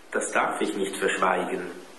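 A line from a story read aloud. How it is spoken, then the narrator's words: Sad. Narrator (German): antwortete der Rektor traurig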